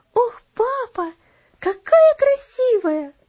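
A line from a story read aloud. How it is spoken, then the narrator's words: Exclaiming. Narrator (Russian): воскликнула она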